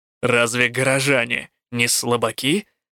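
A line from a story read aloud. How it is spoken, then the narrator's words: Scoffing snort. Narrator (Russian): фыркнул Рук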